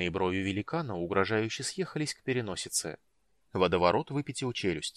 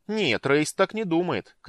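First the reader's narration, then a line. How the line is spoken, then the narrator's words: Shouted. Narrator (Russian): крикнула Мэри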